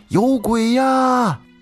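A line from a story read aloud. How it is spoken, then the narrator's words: Terrified scream. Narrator (Chinese): 这男的惊恐的大叫了一声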